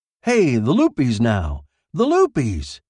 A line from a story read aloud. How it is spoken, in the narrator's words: Len said eagerly